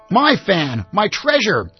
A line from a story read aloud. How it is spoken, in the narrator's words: she gasped